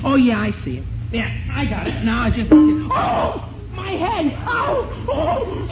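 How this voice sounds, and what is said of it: Yelling out in pain. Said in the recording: “think I'm yelling”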